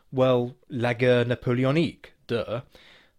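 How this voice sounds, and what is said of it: Poor attempt at French accent. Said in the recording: “That was meant to be a French accent, I do apologise. My incompetence with the French language aside”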